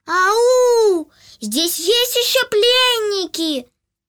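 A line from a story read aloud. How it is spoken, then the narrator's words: Child shouting through cupped hands. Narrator (Russian): Малыш сложил ладошки рупором и громко закричал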